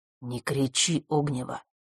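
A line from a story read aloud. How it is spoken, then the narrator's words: Quiet. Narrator (Russian): сказал тихим голосом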